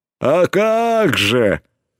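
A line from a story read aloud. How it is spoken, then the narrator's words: Pleased deep bass. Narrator (Russian): пробасил довольный верзила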